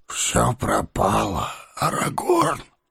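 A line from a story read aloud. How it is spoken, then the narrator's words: Barely audible. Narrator (Russian): еле слышно вымолвил он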